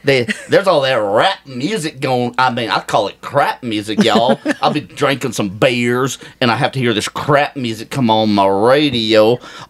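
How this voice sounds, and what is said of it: Put-on hillbilly accent. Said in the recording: “My accent... ...is going to be... Watch this. Oh. Hillbilly.”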